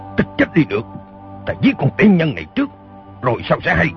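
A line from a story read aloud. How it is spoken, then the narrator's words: Angry shout. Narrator (Vietnamese): Y quát lên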